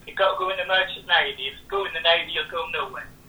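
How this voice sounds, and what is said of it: Imitated old Norfolk accent. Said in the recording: “old Norfolk accent”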